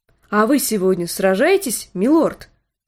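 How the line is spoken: Plain. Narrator (Russian): спросила она

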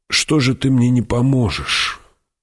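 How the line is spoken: Weary inner question. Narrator (Russian): устало спросил про себя Кинес

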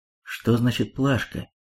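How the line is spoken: Quiet question. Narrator (Russian): тихо спросил Паш у Минастреля

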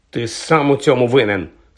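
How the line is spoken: Angry accusation. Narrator (Ukrainian): сердито звинуватив Вуда Джордж

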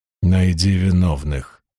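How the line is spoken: Hoarse. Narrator (Russian): хрипло сказал Ранд

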